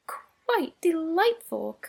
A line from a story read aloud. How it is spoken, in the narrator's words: cried Mrs